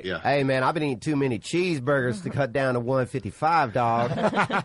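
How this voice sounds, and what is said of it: Imitates another person's voice. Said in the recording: “do a nice Conor impression ... do Theo Vaughn as Conor McGregor ... That's pretty good.”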